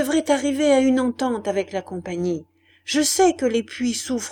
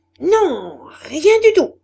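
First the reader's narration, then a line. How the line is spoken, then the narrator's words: Screaming. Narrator (French): hurla-t-elle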